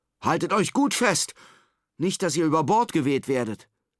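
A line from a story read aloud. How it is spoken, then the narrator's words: Father shouting over wind. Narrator (German): ruft der Vater den Kindern über den tosenden Wind hinweg zu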